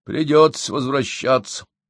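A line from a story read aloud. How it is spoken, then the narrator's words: Sad sigh. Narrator (Russian): печально вздохнул Гедики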